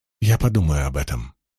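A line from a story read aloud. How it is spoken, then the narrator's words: Whisper. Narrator (Russian): шепнула Бергитта Илэйн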